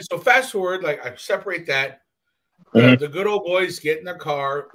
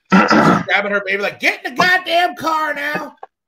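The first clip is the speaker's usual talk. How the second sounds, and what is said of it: Put-on southern redneck accent. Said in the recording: “real southern redneck accent.”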